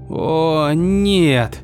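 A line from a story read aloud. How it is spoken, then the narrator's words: Sob. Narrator (Russian): всхлипнула она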